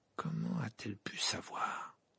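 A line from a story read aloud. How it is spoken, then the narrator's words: Murmured. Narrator (French): murmura-t-il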